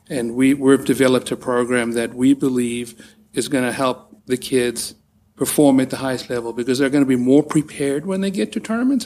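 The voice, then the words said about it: South African accent. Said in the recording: “the accent is spectacular ... So you are from South Africa.”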